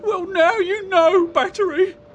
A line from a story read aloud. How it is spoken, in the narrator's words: wailed Comb